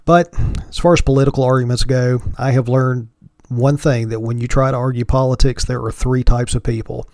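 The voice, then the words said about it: Hillbilly drawl accent. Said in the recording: “my hillbilly drawl”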